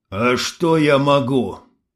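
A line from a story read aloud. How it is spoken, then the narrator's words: Muffled, forced out. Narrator (Russian): глухо выдавливает Егор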